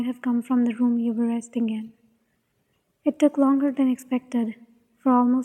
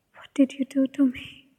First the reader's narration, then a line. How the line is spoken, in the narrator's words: he whispered, voice almost trembling